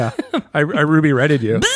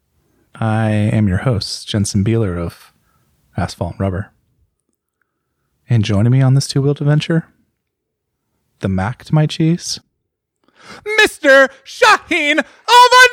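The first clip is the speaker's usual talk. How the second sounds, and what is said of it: Public-radio announcer style voice. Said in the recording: “That was my NPR intro ... NPR voice.”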